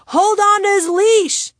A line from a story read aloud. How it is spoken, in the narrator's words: I screamed